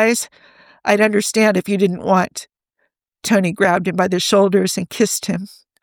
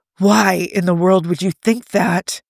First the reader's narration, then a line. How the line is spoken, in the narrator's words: He laughed, a breathy gasp